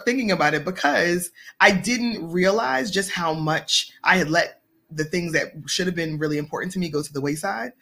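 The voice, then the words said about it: Choked-up, emotional voice. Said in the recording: “It still gets me a little choked up, you guys. So it still gets me a little choked up”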